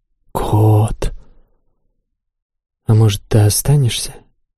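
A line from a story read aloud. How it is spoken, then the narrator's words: Whisper in ear. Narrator (Russian): прошептала мне на ухо Чин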